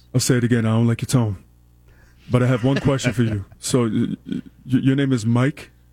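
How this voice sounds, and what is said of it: Imitates another person's voice. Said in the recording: “he does a good Shaq impression. ... He does. It's pretty good. ... it was really good.”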